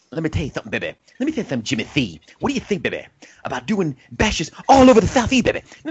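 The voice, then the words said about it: Moderately average Dusty impression. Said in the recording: “a moderately average Dusty impersonation”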